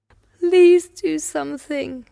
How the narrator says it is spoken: Annabelle cries

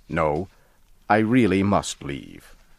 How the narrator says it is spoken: I said firmly

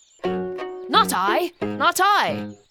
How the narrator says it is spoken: barks the Lazy Dog

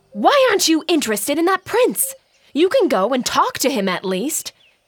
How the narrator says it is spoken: shouted

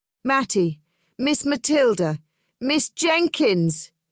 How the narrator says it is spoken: shouted excitedly

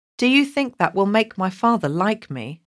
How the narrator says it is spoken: asked Colin

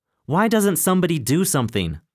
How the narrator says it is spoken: shouted Larry

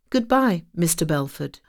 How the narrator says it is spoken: said sadly

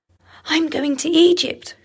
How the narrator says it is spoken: cried the swallow

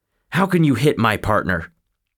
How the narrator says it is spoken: Muff Potter cried out at the doctor

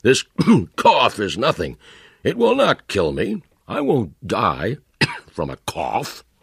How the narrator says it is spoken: he cried

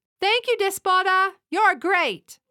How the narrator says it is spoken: They smile and shout

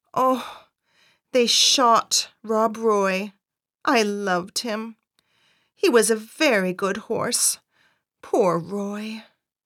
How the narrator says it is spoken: My mother said very sadly

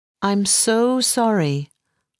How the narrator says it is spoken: I said slowly

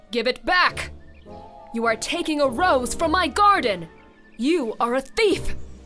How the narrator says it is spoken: shouts the beast

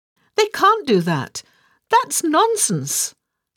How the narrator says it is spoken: Alice cried out bravely

